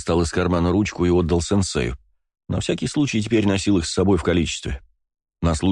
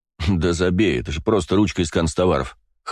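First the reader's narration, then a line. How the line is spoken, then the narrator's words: Dismissive snort. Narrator (Russian): хмыкнул я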